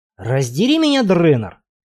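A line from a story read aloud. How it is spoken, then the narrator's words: Growl. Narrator (Russian): прорычал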